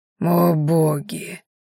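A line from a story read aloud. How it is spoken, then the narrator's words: Barely audible whisper. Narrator (Russian): едва слышно прошептал Дагрен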